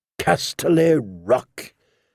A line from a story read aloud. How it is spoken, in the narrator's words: declared in a flat, cold, dead tone